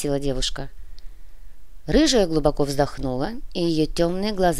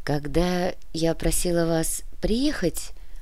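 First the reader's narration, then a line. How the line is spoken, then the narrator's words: Soft. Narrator (Russian): мягко произнесла Яна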